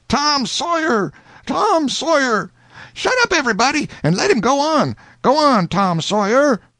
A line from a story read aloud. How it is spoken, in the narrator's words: people began to yell